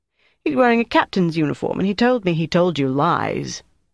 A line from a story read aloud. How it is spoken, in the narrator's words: Paul said